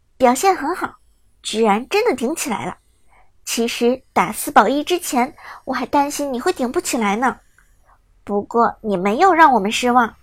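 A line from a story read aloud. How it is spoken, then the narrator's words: Smiling, warm praise. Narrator (Chinese): 韩梦则笑着说道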